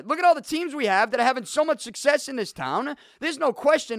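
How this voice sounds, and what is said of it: Boston accent. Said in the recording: “you gotta lose the accent. You can't sound like you're from Boston.”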